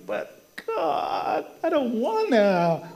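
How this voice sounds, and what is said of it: Whiny voice. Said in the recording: “He gets into his whiny voice. Ever have a whiny voice?”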